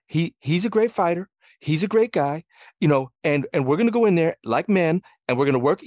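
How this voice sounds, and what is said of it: High-pitched Floyd Mayweather impression. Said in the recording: “doing a Floyd impression ... you do a good Floyd ... that sort of like high pitched”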